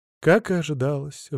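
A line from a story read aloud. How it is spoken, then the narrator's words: Sigh. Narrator (Russian): вздохнул я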